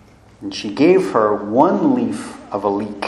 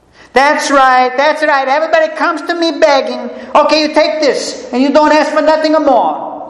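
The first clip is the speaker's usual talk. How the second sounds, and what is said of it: Grandmother's accent, yelling old woman. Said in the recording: “I'm giving her my grandma's accent, though my grandmother never yelled.”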